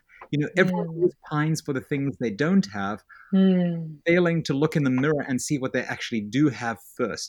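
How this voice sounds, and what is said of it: South African accent, sounds British. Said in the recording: “your fake British accent ... I have this accent. I grew up in South Africa.”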